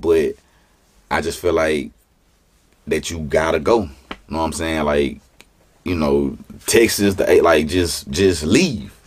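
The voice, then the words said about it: Baton Rouge (BR) accent. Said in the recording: “they love BR, bro. Like, our accent”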